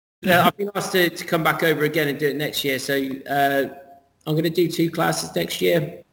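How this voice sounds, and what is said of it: Unusual-sounding accent. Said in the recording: “I talk with my funny accent.”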